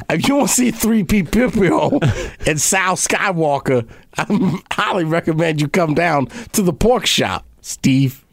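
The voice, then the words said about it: Italian New Jersey accent. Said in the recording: “he's Italian now from like New Jersey ... I don't even know what this accent is now.”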